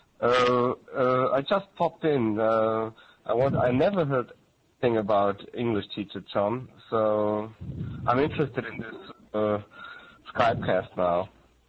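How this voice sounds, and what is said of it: Strong German accent. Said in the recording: “I come from Germany ... I have a strong accent.”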